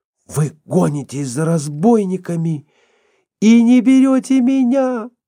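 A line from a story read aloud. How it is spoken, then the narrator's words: Despairing female moan. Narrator (Russian): простонала в отчаянии Фанни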